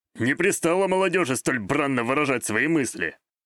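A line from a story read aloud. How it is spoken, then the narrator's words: Good-natured snort. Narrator (Russian): Беззлобно хмыкнул Саитера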